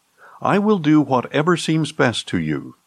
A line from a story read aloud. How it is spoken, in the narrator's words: the king replied